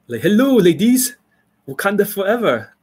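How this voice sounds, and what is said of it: Put-on African accent. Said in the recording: “African accent, like like Wakanda forever kind of accent”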